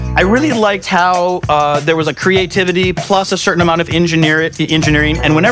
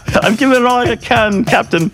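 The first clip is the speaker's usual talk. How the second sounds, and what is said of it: Put-on Scottish accent. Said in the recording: “Don't you need a Scottish accent for that?”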